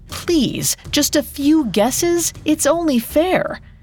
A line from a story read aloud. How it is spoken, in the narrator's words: the men pleaded